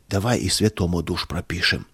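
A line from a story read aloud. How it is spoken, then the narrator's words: Whisper. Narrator (Russian): от шепота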